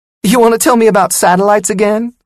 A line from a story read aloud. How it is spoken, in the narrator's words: Sonia laughed